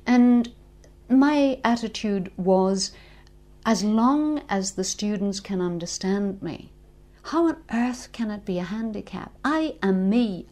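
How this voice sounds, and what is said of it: Northern Irish accent. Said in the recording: “your accent ... I'm not an RP speaker ... I am quintessentially a Northern Ireland person ... make it overt in my speech”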